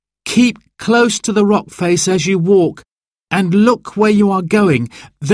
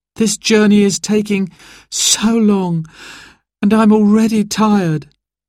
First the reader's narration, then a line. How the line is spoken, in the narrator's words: sighed Sarah